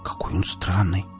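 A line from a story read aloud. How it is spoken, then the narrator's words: Whisper. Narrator (Russian): прошептала Оля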